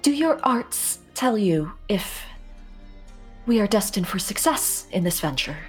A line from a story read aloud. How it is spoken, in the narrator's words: fighting to keep her voice calm as she says